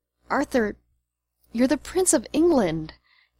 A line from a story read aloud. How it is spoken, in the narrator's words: moaned